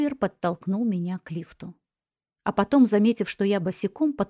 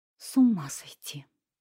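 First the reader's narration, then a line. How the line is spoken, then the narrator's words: Muttered. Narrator (Russian): пробормотала я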